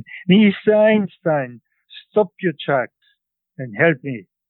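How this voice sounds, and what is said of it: Strong Central European accent. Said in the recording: “in a strong Central European accent”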